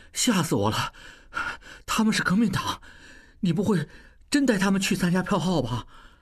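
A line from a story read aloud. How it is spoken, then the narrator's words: Low, breathless. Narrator (Chinese): 小栓才缓过气来，低声道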